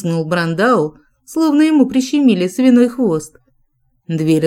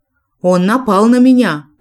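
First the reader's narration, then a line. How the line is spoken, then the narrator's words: Shout. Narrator (Russian): прокричал бразилец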